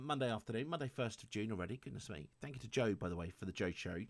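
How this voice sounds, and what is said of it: Slightly rough, hoarse voice. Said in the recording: “my voice is a little bit, a little bit rough around the edges”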